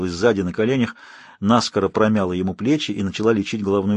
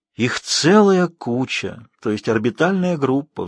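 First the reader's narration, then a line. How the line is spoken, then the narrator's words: Contented relaxed sigh. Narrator (Russian): Вздохнул он, довольно расслабившись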